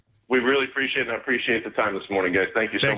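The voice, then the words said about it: Good radio voice. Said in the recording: “That's a good radio voice, too.”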